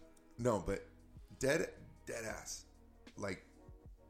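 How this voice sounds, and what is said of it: Usual voice. Nothing is said of it.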